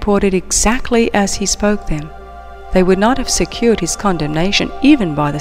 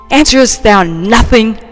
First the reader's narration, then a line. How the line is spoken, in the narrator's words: exclaimed